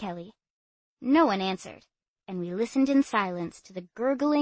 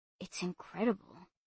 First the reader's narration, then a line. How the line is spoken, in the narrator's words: whispered Matt